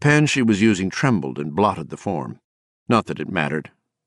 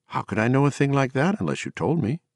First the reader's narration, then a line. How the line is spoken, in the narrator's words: Ruth asked, and with a tremendous effort she made her voice pleasant